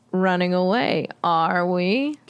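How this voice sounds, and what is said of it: Droll character voice. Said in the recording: “Can you do that in a Mr. Black accent? ... I think that suits him. ... I feel like he's very droll.”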